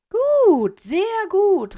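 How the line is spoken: Portrait calling out. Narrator (German): rief Dumbledores Porträt

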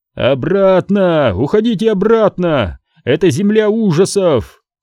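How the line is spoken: Shouting. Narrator (Russian): кричал Илбрак

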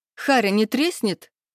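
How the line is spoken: Chuckling. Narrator (Russian): хохотнула я

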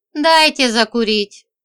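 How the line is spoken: Weary request. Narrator (Russian): устало попросила

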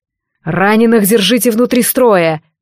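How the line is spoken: Barked command. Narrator (Russian): рявкнул Регалар

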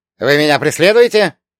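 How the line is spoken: Sharp. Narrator (Russian): резко

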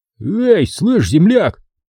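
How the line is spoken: Hoarse rasp. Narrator (Russian): прохрипел один из них, низенький, обрюкший бомж

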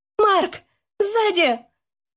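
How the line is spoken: Warning shout. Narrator (Russian): крикнула, предупреждая друга об опасности

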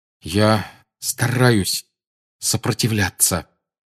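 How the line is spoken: Strained through clenched teeth. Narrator (Russian): выдавил Гарри сквозь стиснутые зубы

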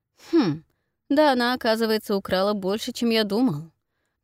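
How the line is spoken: Grumbling under breath. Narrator (Russian): пробурчал себе под нос

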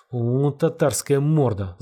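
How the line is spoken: Angry words through teeth. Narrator (Russian): зло процедил Галавль

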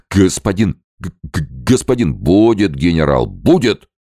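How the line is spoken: Barked. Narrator (Russian): рявкнул Перовский

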